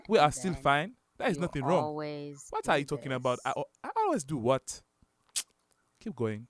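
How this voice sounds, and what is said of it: Put-on Zamundian-style accent. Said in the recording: “Is that the Zamundian accent?”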